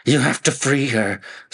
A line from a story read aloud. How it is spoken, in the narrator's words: screamed the man